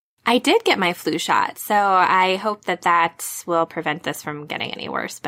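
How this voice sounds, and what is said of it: Congested, stuffy-nosed voice with a cold. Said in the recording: “I have a cold ... kind of sore throat, kind of stuffy nose”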